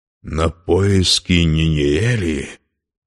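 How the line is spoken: Exclaimed. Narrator (Russian): воскликнул Турин

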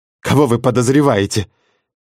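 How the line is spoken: Exasperated yelling. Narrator (Russian): Не выдержав, наконец, заорала я следователю в лицо

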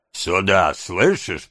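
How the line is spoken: Grumbling. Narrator (Russian): проворчал этот симпатичный субъект

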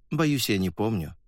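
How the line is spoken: Calm. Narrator (Russian): спокойно сказал землянин

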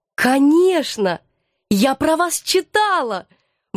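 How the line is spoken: Eager exclamation. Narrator (Russian): воскликнула я, всей душой захваченная интересом к этой новой неординарной персоне

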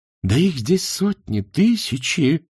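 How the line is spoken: Exclaiming. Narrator (Russian): воскликнул профессор современного руносложения

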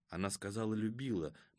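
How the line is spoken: Muttering to himself. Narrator (Russian): бормотал он про себя

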